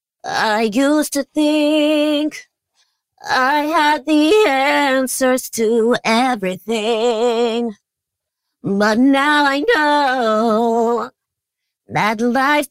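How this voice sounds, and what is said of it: Sung imitation of another person's voice. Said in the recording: “your Britney impersonation ... my Britney impersonation”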